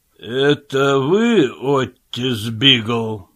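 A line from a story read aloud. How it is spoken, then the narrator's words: Menacing question. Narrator (Russian): грозно спросил шеф полиции Коблер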